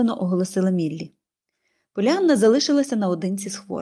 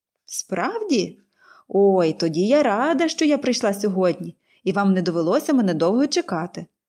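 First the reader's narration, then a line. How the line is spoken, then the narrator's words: Cheerful laughing speech. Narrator (Ukrainian): весело засміялася Поліанна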